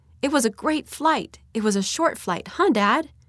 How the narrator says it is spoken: in a voice I can still hear in my mind, the girl exclaimed to her dad excitedly

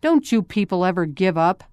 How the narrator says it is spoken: Brother Ernest grumbled

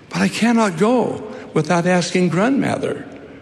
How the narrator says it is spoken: faltered Rupert

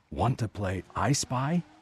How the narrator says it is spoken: whispered

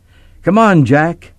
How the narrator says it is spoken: Mike hollered

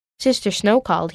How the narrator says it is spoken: said

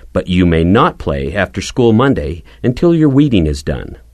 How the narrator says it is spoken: Mother had said, adding firmly

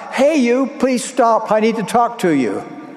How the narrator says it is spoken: he shouted out

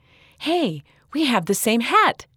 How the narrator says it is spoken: Sydney exclaimed

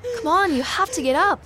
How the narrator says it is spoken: I gasped, trying to help the girl sit up

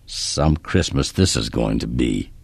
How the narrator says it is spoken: Kip muttered

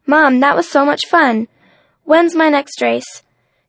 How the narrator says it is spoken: she blurted out

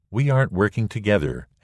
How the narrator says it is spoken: Ammon said

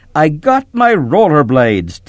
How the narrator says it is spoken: Tim shouted

